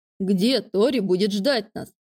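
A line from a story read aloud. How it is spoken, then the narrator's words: Plain. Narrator (Russian): спросил Алекс Майка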